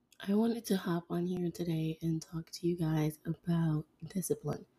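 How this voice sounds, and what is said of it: Hoarse, off-sounding voice. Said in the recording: “I did recently lose my voice. So in case it sounds off”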